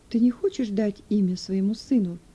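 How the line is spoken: Plain. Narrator (Russian): спросила его Линдлинг

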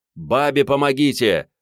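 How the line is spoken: Shouted. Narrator (Russian): прокричал старший маневровый

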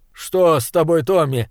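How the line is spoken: Shouted. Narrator (Russian): крикнул он

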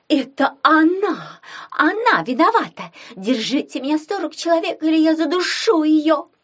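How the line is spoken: Theatrical shout. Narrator (Russian): театрально закричала Лиза Залезина

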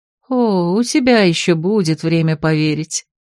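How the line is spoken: Soft laughing. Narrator (Russian): тихо рассмеялась чародейка

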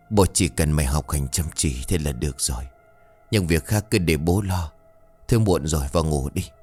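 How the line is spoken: Gentle comforting. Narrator (Vietnamese): Ông Trường khẽ an ủi

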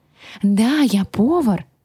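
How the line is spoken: Exclaiming. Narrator (Russian): воскликнул он

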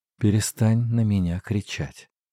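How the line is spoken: Low deadly tone. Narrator (Russian): сказала она своим низким убийственным тоном

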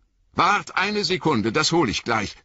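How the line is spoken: Calling out. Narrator (German): rief Sam

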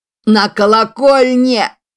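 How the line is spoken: Shout. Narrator (Russian): кричал он

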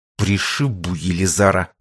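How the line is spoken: Angry, through gritted teeth. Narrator (Russian): зло скрипнул зубами Егор

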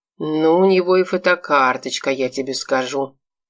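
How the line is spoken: Sigh, envious or disapproving. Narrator (Russian): вздохнул Миша, не то с завистью, не то с осуждением

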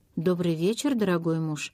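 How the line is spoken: Calm. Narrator (Russian): спокойно сказала Розмари

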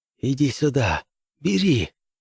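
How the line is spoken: Lieutenant whispering. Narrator (Russian): прошептал лейтенант

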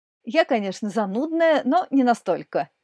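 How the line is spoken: Cheerful reply. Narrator (Russian): весело ответила Екатерина

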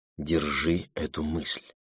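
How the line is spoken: Whispered. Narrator (Russian): Абра прошептала

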